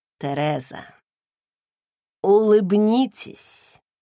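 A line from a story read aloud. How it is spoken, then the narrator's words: Drawled. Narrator (Russian): протянул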